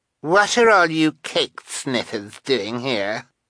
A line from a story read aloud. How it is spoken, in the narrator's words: demanded Carmelita, in an obnoxious voice